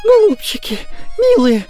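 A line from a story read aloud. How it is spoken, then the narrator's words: Shrill shriek. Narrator (Russian): вскрикивает визгливо Прасковья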